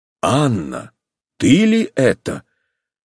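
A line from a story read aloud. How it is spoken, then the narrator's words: Quiet, restrained. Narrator (Russian): сказал Алексей Александрович тихо, сделав усилие над собою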